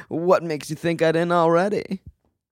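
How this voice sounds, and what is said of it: Imitates another person's voice. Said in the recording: “he did his little Miles thing ... this is my Miles impression.”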